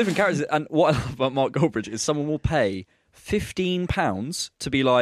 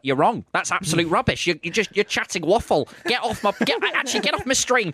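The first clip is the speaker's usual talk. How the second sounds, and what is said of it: Imitates another person's voice. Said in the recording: “That's a really good impression.”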